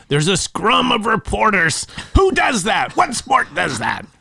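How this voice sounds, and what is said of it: Imitation of another person's voice. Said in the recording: “That's a pretty good imitation.”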